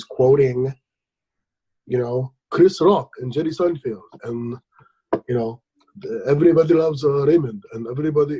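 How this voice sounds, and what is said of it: Bad put-on Arabic accent. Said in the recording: “I'm doing a bad Arabic accent... That's your people. You can do that accent.”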